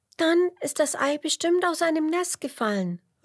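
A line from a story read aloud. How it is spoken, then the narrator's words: Called out. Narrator (German): ruft Emmerla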